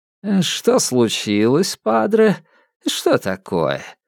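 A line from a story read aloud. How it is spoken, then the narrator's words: Ingratiating purring, cat-like toying. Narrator (Russian): послышался голос переводчика, вкрадчивый, мурлыкающий, как у кошки, забавляющейся своей жертвой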